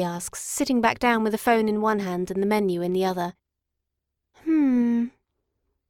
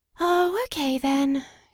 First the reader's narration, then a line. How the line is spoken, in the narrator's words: she sighs